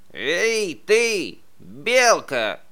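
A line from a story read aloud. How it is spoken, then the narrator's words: Badger shouting. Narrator (Russian): крикнул барсук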